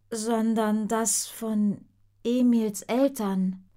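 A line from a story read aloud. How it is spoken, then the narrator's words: Very slow objection. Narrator (German): wendet Gloria ein, die so langsam spricht, wie der Wasserhahn tropft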